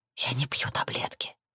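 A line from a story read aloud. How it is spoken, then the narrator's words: Whispered. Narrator (Russian): шепнула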